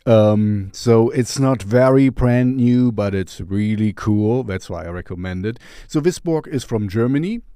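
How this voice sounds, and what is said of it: German speaker's strange-sounding accent. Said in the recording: “I am from Germany as well, even if my accent is strange.”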